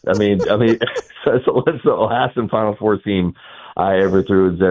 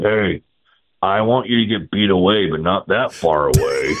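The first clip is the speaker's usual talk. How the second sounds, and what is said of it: Impression of Bruce Bochy. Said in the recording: “that's a solid Boach impersonation”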